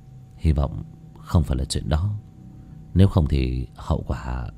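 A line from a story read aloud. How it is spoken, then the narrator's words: Muttering. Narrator (Vietnamese): Bác cổ mà lẩm bẩm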